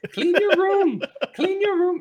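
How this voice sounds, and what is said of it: Weak Jordan Peterson impression. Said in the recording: “in a Jordan Peterson accent, which I would if I had a good Jordan Peterson accent... That was not good.”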